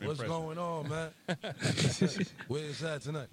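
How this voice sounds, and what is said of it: Imitates another person's voice. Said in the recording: “you do a great French impression. ... that sounds exactly like”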